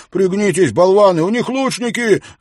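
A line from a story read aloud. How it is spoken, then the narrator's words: Yelling. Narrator (Russian): завопил он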